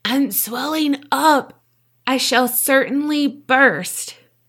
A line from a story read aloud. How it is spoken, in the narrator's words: Esther choked out